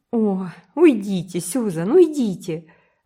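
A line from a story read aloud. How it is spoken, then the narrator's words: Desperate exclamation. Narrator (Russian): в отчаянии воскликнула Энн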